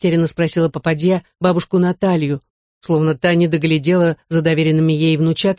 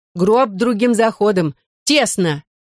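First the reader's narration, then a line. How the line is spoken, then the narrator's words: Woman shouting. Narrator (Russian): крикнула другая женщина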